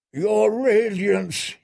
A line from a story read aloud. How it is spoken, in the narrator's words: he moaned